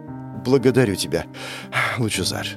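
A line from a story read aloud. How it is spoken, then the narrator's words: Dejected, sinking voice. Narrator (Russian): упавшим голосом произнесла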